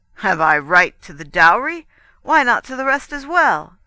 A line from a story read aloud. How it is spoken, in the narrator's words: cried Guido, or cried Paolo in his name